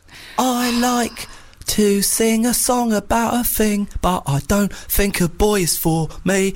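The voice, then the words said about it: Sung imitation of another singer's voice. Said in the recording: “Was I doing a Kate Nash impression? ... You were doing Kate Nash.”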